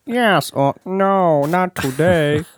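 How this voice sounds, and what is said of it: Robotic voice. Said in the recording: “That's a robot voice. ... Yeah, it was very good.”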